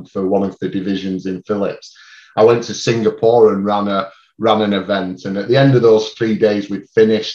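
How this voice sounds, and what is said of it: Strong regional non-standard British accent. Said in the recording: “until I heard you, I thought the accent was made up ... people struggle a bit enough with my accent anyway, because it's not that typical Queen's English ... you've got a lovely accent”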